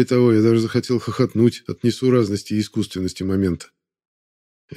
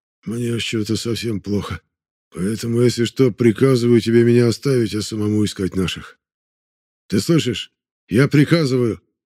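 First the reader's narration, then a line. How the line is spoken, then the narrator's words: Hoarse, tired, pained. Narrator (Russian): Его хриплый голос усталого и замученного болью человека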